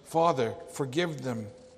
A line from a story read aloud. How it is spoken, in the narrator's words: he cries out